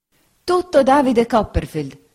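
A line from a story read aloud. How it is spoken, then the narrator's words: Exclaimed. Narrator (Italian): esclamò la signora Bezze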